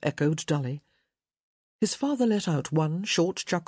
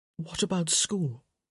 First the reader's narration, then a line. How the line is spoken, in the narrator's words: whispered